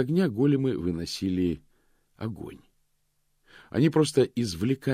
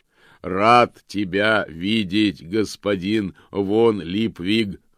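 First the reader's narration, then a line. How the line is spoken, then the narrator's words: Joyful booming voice. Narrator (Russian): радостно прогремел он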